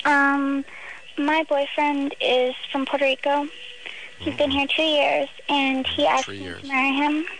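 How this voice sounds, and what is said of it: High childlike baby voice. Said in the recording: “got someone with the baby voice.”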